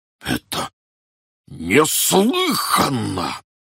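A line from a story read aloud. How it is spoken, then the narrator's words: Roared. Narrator (Russian): проревел Петр Иванович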